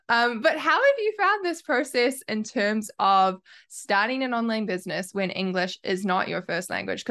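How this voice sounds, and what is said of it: New Zealand accent. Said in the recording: “I have a Kiwi accent ... my accent is awful”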